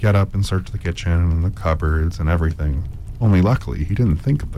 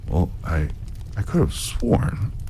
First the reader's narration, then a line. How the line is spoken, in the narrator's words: The giant would mutter